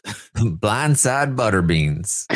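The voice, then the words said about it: Put-on Southern accent, heavy R. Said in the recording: “Can you say it like Jasmine, though? ... you put a little bit too much in the R. That's more of a Texas accent. You want like a little bit more of a less rhotic R in the Mississippi.”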